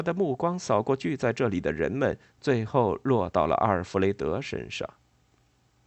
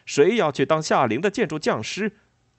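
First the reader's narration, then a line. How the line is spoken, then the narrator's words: Loud shout. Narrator (Chinese): 他高叫着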